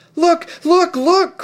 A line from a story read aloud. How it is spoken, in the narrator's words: cried Lucy